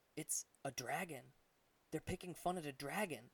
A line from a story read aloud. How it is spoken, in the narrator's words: Artius whispered